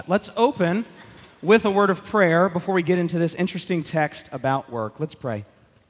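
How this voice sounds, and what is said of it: Congested voice from a cold. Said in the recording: “I've got a little bit of a cold, you can probably tell”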